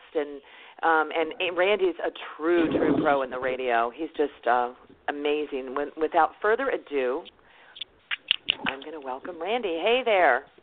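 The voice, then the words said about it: Excited, enthusiastic voice. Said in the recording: “Could you hear the excitement in my voice? ... I could. I really could.”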